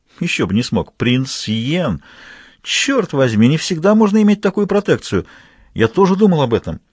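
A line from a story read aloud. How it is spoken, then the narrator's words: Exclaimed. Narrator (Russian): воскликнул Гастон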